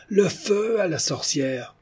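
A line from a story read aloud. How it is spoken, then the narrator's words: Crowd shouting. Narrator (French): Le peuple cria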